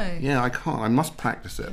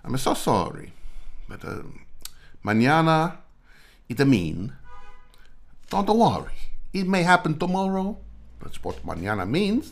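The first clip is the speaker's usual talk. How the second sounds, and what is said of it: Put-on Italian accent. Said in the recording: “I can't actually do a Spanish accent. ... Maybe I could just do an Italian one.”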